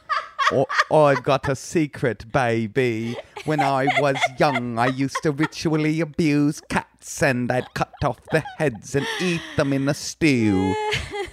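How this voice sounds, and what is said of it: Put-on Austin Powers-style British accent. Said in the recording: “just give it a little Austin Powers accent.”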